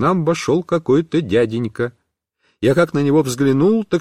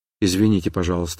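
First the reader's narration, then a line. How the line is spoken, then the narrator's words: Quiet. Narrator (Russian): сказала она тихо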